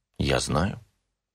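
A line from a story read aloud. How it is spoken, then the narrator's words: Calm. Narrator (Russian): спокойно сказала Аида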